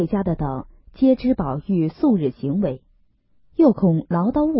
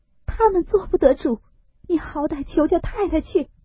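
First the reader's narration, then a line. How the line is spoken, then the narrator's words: Crying. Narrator (Chinese): 思琪 哭道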